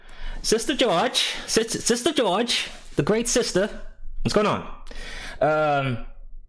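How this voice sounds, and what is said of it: Fake British accent. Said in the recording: “I tried to use a fake Harry Potter accent.”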